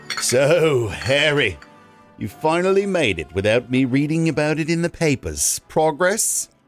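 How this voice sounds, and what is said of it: Attempted English accent as King Charles. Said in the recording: “Is that Australian? Is that English? ... your Australian accent and your English accent are the exact same thing.”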